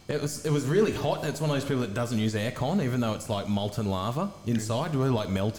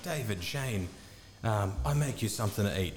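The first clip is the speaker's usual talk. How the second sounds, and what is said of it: Put-on East Asian accent. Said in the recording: “She was Oriental. ... I got that by the accent.”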